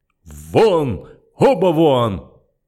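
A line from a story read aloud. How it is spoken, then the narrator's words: Thunderous bellow. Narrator (Russian): Циммерман гаркнул так, что офицеров вынесло из здания в одно мгновение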